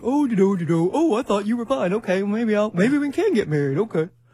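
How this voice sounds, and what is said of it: Imitates a stereotypical man's voice. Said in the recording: “my man impersonation.”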